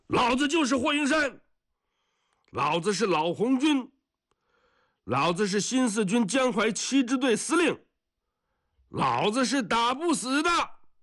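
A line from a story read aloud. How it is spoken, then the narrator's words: Shouting. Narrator (Chinese): 他喊一声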